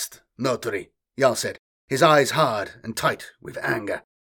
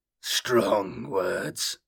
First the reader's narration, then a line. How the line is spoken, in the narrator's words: Jarl growled